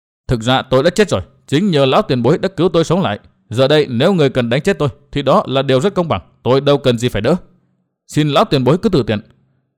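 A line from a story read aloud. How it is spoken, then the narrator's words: Cold, uneasy. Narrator (Vietnamese): Nguyên Bình giật mình lo ngại, chàng lạnh lùng nói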